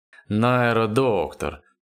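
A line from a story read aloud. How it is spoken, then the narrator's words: Good-natured booming. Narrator (Russian): добродушно прогудел он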